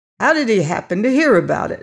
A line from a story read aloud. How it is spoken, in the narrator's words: snapped Scipio